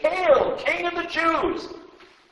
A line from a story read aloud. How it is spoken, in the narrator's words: The soldiers mocked him by saying